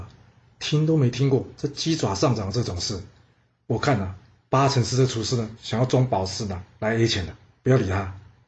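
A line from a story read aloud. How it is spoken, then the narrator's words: Low murmur. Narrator (Chinese): 卢普片呢，低声的跟着庆舍说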